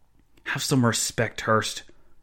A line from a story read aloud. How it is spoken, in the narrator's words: Joseph Zahn hissed